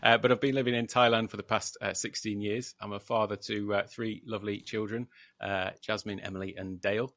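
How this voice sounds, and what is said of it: British accent. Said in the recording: “From the UK originally, in case anybody hadn't gathered that from my accent.”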